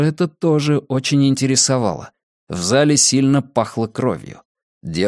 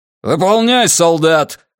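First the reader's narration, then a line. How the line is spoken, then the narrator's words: Barked order. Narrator (Russian): гаркнул лейтенант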